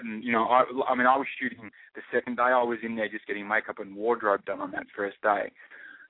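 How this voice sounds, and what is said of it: Australian accent. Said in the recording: “I speak in my Australian accent”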